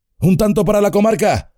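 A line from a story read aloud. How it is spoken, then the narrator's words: Shouting. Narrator (Spanish): gritó Aragorn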